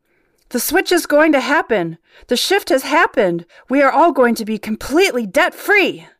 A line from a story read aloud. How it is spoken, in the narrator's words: Prince shouted out